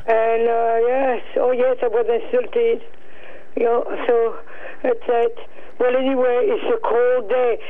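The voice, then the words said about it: Non-native French-accented English. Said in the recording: “when they hear my accent, they insult me”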